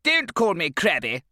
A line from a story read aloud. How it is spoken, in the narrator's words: spat Mrs